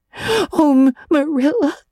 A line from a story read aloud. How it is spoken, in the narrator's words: sobbed Anne